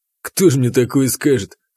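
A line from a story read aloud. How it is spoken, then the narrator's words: Snort. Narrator (Russian): хмыкнул он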